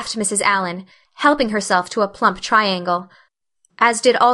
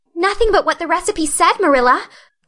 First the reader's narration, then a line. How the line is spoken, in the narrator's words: cried Anne with a look of anguish